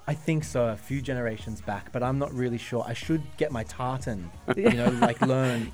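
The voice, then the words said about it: Australian accent. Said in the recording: “I bet that's an Australian accent ... Australian.”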